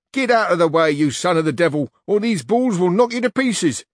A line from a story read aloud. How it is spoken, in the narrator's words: one of them who was in advance began shouting to Don Quixote